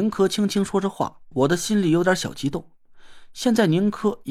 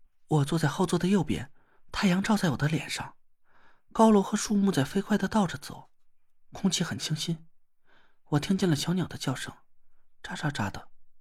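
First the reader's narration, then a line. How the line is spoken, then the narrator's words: Soft murmuring. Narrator (Chinese): 宁珂 喃喃的低声说了起来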